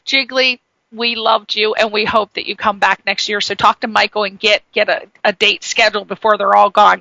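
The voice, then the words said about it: East Coast American accent. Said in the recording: “we got the East Coast accent. I know you can hear mine as well, even though I'm from Connecticut.”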